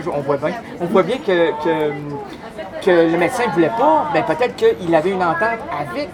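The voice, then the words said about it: Put-on Québécois French accent. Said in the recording (French): “je prends un accent québécois”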